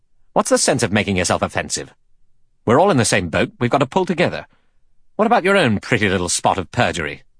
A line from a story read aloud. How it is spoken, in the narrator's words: Philip Lombard said quickly and angrily to Blore